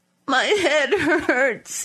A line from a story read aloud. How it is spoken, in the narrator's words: he said, sobbing